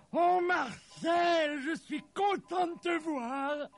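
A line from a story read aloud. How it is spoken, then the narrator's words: Exclaimed. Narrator (French): s'écria le Père Noël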